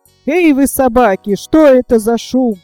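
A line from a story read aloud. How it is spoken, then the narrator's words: Thunderous shout. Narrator (Russian): закричал он громовым голосом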